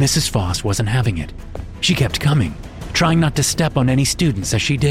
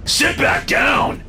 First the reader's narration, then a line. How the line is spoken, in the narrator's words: David shouted